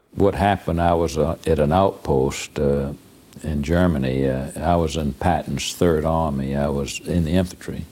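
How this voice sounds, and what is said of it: Slow, deep Savannah accent. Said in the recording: “a slow, deep Savannah accent”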